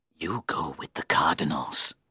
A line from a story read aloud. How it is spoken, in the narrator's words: he hissed